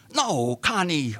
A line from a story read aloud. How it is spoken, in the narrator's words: Artie screamed just above the thunder of the waters